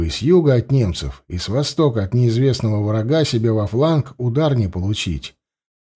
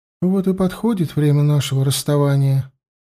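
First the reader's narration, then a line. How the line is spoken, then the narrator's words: Sad smiling speech. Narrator (Russian): грустно улыбнулась Марта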